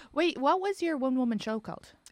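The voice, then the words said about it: Smooth radio announcer voice. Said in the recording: “I'm going into my radio voice.”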